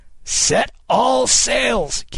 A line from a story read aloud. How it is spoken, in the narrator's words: Kidd cried